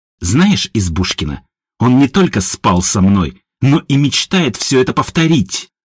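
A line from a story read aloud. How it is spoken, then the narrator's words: Spiteful hiss. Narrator (Russian): злобно прошипела Илона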